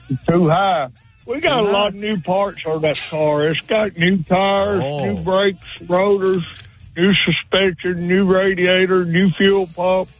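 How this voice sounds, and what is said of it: Strong backwoods Alabama Southern accent. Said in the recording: “I love your accent, but I think you're impersonating a real backwoods Tuscaloosa, Alabama ... I'm from Tuscaloosa”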